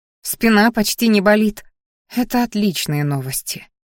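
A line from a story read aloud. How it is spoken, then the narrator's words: Sigh. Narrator (Russian): вздохнула женщина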